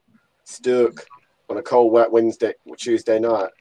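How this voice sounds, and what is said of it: Put-on Stoke accent. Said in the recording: “What was that accent? Hang on. What was that accent? ... Do you Stoke again?”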